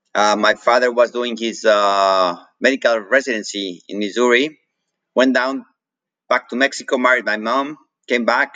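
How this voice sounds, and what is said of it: Mexican-accented English. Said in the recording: “I have an accent because I grew up in Mexico. And it's a Mexican accent”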